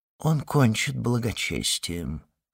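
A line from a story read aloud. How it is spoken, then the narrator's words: Undertone. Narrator (Russian): сказал он вполголоса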